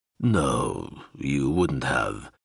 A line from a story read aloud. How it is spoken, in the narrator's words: Zoxal purred